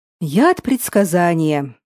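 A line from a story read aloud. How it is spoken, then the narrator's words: Old man's sigh. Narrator (Russian): вздохнул старый оракул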